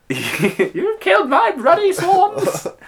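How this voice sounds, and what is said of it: Imitates the Queen's voice. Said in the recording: “That's what she sounds like ... the queen”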